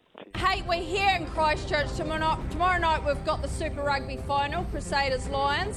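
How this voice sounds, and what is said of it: New Zealand accent. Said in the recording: “New Zealand accent”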